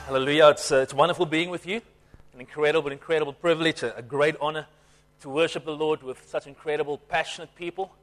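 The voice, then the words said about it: Slightly strained voice. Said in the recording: “my voice is taking a little bit of strain”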